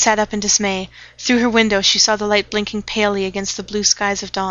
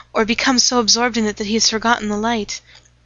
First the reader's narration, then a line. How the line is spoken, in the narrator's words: she said anxiously